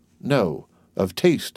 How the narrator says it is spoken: continued Franz gravely

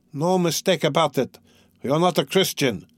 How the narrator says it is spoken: many voices were shouting in the crowd

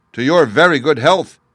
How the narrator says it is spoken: cried the shepherd before anyone else

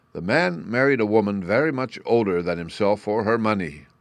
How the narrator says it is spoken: said he

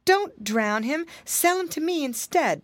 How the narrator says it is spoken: begged Martin

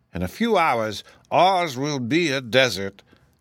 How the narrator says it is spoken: said the chief of the Whimsies, with an evil laugh

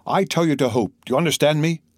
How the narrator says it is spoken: cried Monte Cristo

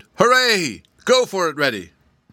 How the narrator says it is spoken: He shouted so hard

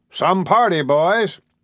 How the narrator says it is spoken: a group of men shouted

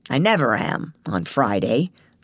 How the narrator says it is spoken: grumbled Mr

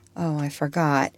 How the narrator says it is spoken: said Eva sadly

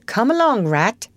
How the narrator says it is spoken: cried the mole

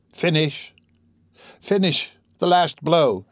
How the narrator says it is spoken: She began to murmur in a low voice

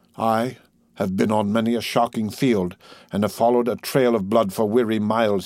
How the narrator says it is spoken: he said

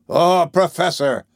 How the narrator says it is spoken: shouted Ned Land, whose hunting fever had gone to his brain

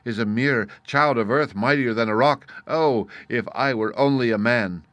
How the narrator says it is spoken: he cried in his wrath

